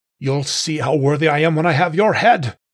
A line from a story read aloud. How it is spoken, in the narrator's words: He roared defiantly